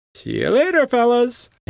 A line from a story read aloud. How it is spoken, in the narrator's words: chuckling